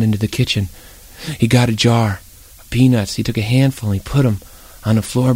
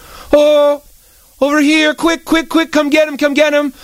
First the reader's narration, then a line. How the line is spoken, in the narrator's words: he heard his mother yell over the vacuum cleaner